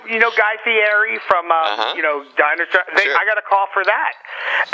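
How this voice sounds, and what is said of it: Usual voice. Nothing is said of it.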